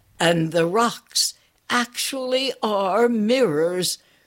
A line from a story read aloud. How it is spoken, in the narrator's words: cried Polar Bear